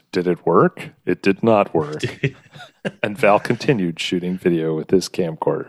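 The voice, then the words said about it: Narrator voice. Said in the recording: “Narrator voice.”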